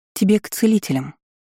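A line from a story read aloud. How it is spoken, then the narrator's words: Calm remark. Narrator (Russian): заметила я спокойно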